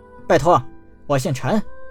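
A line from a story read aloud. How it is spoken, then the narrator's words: Quiet mutter. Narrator (Chinese): 陈南小声嘀咕了一句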